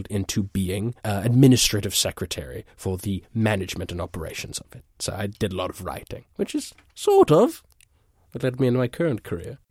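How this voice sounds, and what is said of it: Sultry foreign accent, dulcet tone. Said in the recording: “that accent that you're hearing. In my country, it's deemed like nails on a chalkboard ... beautiful and sultry and it has a dulcet tone to it”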